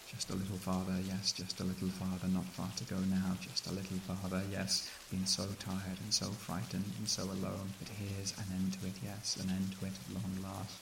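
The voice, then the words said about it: Crooning, eerie character voice. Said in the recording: “crooning at me in my own voice”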